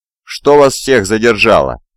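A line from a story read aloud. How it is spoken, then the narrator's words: Deep bass voice. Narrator (Russian): пробасил Уолли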